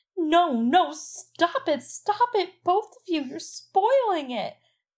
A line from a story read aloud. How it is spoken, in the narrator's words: Sansa was shrieking